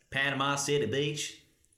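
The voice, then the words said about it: Convincing Southern American redneck accent. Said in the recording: “do your best Panama City Beach Southern accent... proper redneck... That's pretty spot on.”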